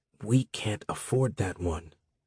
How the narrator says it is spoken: Maro whispered

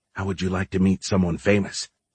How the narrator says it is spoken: whispered

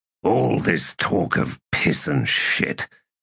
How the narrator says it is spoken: he muttered

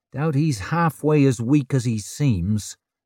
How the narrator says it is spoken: said Ricker

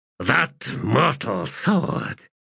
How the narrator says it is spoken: he muttered low

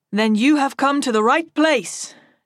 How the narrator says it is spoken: Chadan says loudly for all to hear

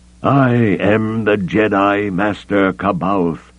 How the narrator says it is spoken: he shouted, his voice ringing through the throne room and the roar of the rockfalls

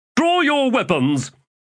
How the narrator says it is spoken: he snapped

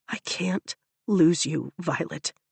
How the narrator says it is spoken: he whispers

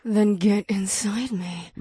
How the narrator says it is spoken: the witch purred

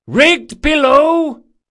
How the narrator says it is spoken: yelled

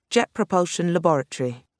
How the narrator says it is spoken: Jane said stiffly, pronouncing the words carefully

